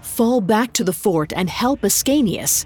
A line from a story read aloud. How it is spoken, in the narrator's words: he said urgently